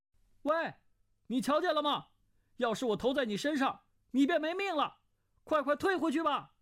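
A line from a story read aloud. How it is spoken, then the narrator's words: Calling out. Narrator (Chinese): 段誉叫道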